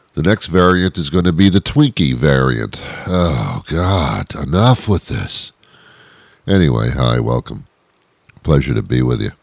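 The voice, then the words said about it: Congested, stuffy-nosed voice. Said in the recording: “My allergies are killing me. Can you hear it in my voice that my nose is stuffed?”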